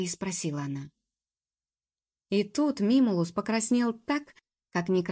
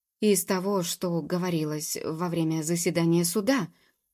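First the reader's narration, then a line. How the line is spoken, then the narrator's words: Strained reluctant utterance. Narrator (Russian): наконец выдавил он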